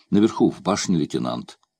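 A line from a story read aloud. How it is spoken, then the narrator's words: Plain. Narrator (Russian): ответил Кармо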